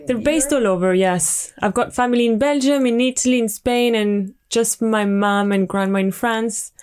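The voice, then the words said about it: Strong French accent in English. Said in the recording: “your accent is truly, for me, it's French ... Very French ... the French comes back a bit stronger”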